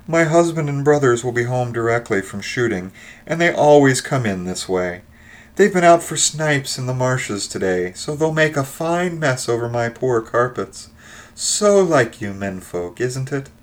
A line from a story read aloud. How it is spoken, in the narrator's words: She rattled on cheerfully